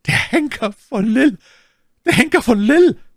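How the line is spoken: Terrified shriek. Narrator (German): kreischte My Lady von einem wahnsinnigen Schrecken erfasst

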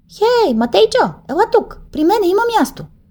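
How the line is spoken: Shout from back row. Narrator (Bulgarian): извика някой от най-последния чин

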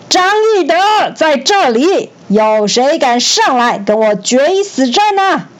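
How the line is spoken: Thunderous roar. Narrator (Chinese): 张飞连续吼，连续叫了三次，声音就像大雷一样洪亮

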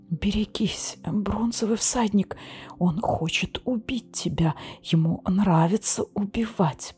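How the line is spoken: Whispering. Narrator (Russian): прошептала она

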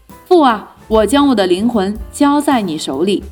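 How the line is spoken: Loud cry. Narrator (Chinese): 耶稣大声喊着说

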